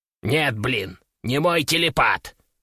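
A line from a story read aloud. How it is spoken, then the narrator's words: Snorting. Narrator (Russian): фыркнул Кеша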